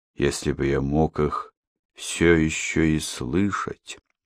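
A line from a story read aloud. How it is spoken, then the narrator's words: Muttering. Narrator (Russian): пробормотал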